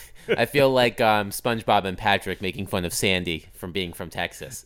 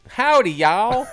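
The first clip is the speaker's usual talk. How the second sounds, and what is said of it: Put-on Southern accent. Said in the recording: “Southern accent ... Do the whole ad in that voice”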